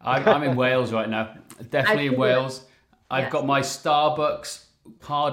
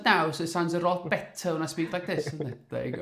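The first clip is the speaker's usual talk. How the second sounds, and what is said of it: Exaggerated Welsh accent. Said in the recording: “You need to put a stronger accent on that, because Wendy said you sounded Welsh. ... I'll put on an accent”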